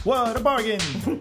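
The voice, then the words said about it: Put-on English accent. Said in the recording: “my English accent there.”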